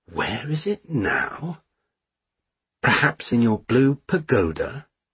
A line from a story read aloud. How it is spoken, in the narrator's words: muttering as he went